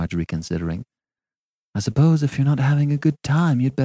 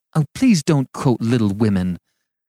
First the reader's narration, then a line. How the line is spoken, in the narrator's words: cried Marjorie impatiently